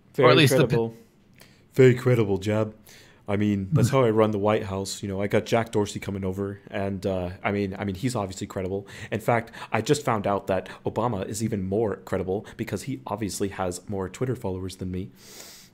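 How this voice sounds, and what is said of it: Poor Donald Trump impression. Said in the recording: “your Trump impression is terrible”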